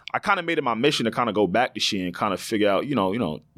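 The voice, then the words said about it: New York accent. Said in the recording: “when you hear New York, you know what I'm saying? Like you hear my my accent, you you know, a couple people might think, yo, where you from? You from a borough?”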